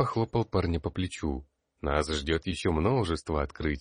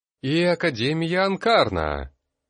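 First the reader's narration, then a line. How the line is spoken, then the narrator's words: Loud exclamation. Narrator (Russian): громко воскликнула Нодерляйн, завершая свою речь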